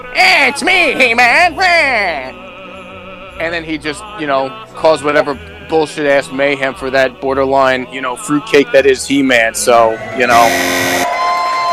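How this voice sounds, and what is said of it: Skeletor cartoon villain voice. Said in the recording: “You got one of the perf- most perfect Skeletor impersonations I've ever heard ... I was impressed by his Skeletor as well”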